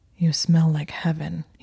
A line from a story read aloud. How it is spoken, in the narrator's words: he said in a husky voice